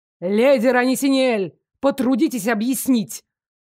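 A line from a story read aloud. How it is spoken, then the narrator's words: Barked. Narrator (Russian): рявкнул ректор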